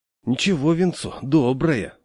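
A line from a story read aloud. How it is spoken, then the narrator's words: Sigh. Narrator (Russian): вздохнул дядя Саша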